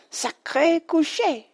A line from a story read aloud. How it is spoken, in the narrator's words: cried Madame Hortense